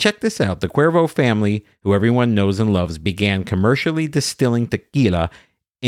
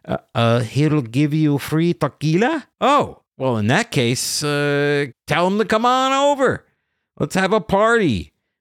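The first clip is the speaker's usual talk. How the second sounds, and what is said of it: Bad half Mexican, half American accent. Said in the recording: “This is like a terrible half Mexican, half American accent I'm using.”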